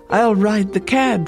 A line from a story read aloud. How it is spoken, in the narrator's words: she cried